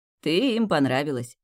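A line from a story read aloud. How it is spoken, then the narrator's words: Chuckling. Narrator (Russian): хохотнул Тимеон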